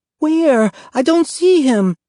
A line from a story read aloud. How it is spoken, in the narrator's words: Evelina whined